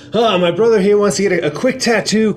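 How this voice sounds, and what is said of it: Exaggerated character voice. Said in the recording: “in an exaggerated voice”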